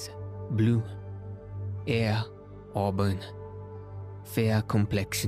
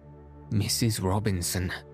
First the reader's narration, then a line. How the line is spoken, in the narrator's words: I gasped